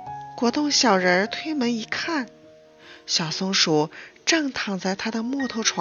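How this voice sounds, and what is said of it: Usual voice. Nothing is said of it.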